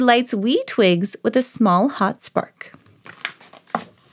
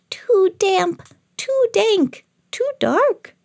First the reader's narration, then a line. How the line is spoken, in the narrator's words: Mouse squeaks